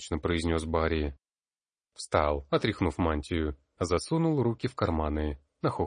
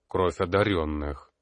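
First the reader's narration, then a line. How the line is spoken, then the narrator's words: Grumbled. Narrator (Russian): буркнул Ботлер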